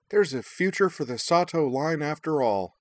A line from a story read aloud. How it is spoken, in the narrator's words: Minami declared happily